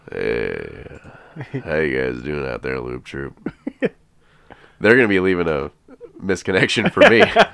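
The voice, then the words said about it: Put-on sexy, sultry voice. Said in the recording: “You sound extra sexy today. ... Ooh, sexy voice.”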